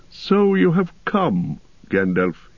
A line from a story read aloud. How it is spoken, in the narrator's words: said gravely